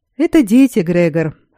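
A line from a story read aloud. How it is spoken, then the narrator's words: Snort. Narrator (Russian): хмыкнул Эддерли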